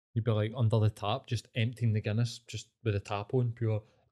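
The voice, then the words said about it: Put-on Irish accent. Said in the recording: “Talking in an Irish accent”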